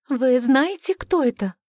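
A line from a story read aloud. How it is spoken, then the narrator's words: Excited question. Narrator (Russian): взволнованно спросила Коря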